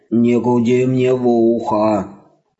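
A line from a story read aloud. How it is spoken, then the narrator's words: Muffled grumble. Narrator (Russian): Глухо пробурчал ковер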